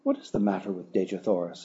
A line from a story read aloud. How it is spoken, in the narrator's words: blurted out